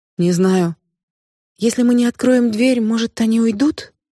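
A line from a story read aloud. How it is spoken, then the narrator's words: Timid suggestion. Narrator (Russian): робко предположила Нита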